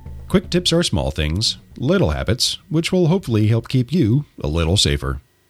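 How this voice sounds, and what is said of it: Voice affected by a cold. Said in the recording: “I am your ill host ... excuse my voice this week, I have a bit of a cold”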